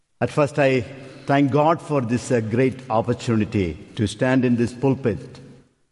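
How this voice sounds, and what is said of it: Non-native English accent. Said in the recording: “This is not a usual voice in this church. ... I bring it different languages and different accent.”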